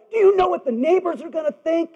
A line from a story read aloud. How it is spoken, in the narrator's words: she screamed out at him